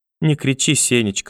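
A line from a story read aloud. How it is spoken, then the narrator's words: Timid elderly plea. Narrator (Russian): робко попросила бабушка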